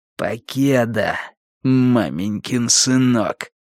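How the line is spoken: Hissing. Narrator (Russian): прошипел Уиттекер Страйку

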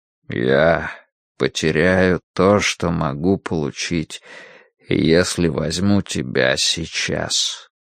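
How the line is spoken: Soft whisper. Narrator (Russian): Он тихо шепчет

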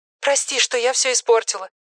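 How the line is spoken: Hurried girl's voice. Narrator (Russian): торопливо проговорила девочка

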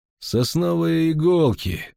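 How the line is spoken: Soft, offhand. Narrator (Russian): мягко бросил Хоцпорн

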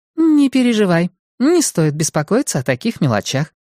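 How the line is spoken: Cheerful reassurance. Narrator (Russian): бодро заверила она

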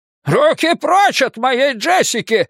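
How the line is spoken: Gruff old man barking. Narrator (Russian): рявкнул дедушка

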